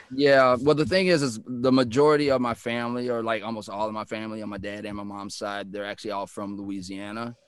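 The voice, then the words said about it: Texan accent with Louisiana Cajun tinge. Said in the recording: “the way you speak, like you're from Texas ... there's this like this New Orleans thing in the way that you speak ... they do hear kind of a Cajun or a Creole”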